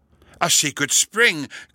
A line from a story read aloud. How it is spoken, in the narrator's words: cried Clifford